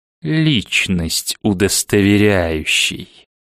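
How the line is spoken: Venomous hiss. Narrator (Russian): змеем подколодным прошипел директор

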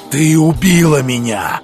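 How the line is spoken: Growling. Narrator (Russian): прорычал Бруно Фрай

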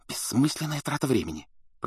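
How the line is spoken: Hissing. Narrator (Russian): прошипела Гермиона

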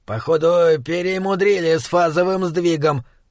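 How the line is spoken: Grumbled. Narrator (Russian): проворчал демон

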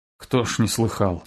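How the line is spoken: Prisoner, very quiet breath. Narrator (Russian): тихо-тихо выдохнул узник

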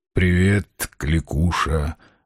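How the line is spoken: Through clenched teeth. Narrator (Russian): бросил он сквозь зубы

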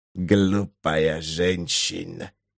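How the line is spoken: Hissing in broken language. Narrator (Russian): зашипел он на исковерканном эрлийском

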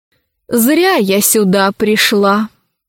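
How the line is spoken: Sighing woman. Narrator (Russian): вздохнула Геневьева

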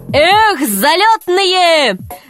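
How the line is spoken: Shouting at horses. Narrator (Russian): закричал на лошадей Греко

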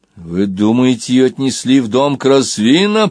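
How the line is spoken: Growled. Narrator (Russian): прорычал Банкан

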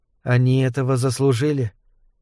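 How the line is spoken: Quiet. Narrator (Russian): так же тихо ответила Дарья

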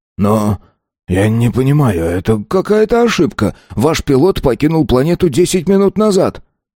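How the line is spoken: Confused mumbling. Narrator (Russian): растерянно пробормотал

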